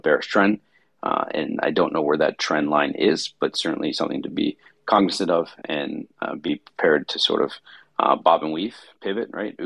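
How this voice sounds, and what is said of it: Slightly raspy, tired voice. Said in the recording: “my voice is a little raspy. I'm a little tired today”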